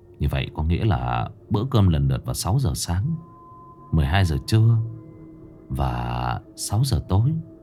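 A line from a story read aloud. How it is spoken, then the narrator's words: Muttering. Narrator (Vietnamese): Thượng lẩm bẩm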